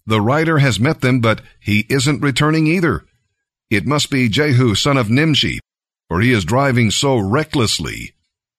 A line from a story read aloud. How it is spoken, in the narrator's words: The watchman exclaimed